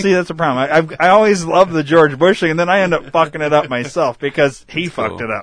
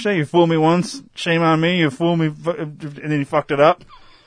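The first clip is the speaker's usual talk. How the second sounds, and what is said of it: Poor imitation of another person's voice. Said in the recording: “That was my George Bush impression, by the way. ... It was terrible.”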